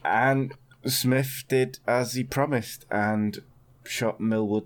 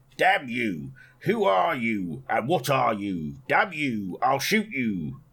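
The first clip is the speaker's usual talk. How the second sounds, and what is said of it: Bad put-on Cockney accent. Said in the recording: “But your accent is terrible. ... Cockney, yeah, geezer.”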